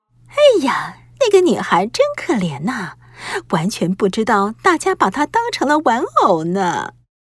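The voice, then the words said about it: Hushed, quiet gossiping voice. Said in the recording (Chinese): “她们小声地说”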